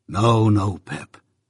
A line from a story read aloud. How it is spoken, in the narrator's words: said Joe in a comfortable tone